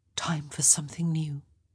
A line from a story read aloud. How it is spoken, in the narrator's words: she whispered